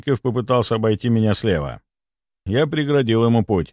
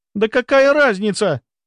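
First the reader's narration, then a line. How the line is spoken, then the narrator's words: Shrill shriek. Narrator (Russian): взвизгнула Соколова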